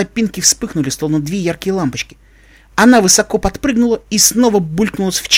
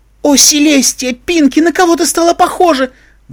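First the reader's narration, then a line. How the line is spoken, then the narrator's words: Queen's flustered exclamation. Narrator (Russian): воскликнула королева, стараясь избежать липких обнимашек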